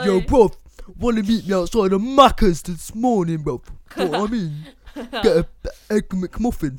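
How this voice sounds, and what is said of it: Exaggerated London roadman slang accent. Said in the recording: “if you're a roadman, I've totally butchered your dialect ... I'm butchering everything”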